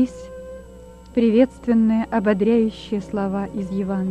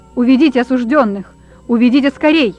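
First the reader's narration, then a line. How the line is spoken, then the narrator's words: Angry shout. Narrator (Russian): Со злобой закричал прокурор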